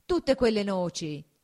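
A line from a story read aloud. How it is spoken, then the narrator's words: Exclaiming. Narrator (Italian): esclamò Agnese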